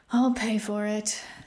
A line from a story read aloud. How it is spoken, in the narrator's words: Ozarin sighed